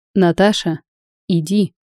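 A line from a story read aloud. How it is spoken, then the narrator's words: Stern yet tender command. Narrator (Russian): велел строго и ласково Михаил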